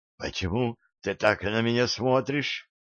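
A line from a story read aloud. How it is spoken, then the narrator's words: Hoarse, strained. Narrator (Russian): хрипло выдавила она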